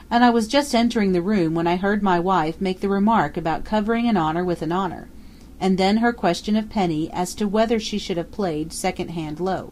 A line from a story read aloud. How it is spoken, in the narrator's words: Drake explained coldly